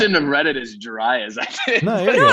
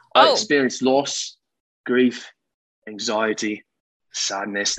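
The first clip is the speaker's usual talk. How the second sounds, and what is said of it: Put-on British-Australian accent. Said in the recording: “British accent and everything... This is more Australian... that's definitely Australian... that's Australian”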